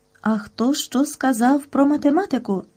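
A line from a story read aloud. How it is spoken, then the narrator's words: Gentle question, female. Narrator (Ukrainian): лагідно запитала вона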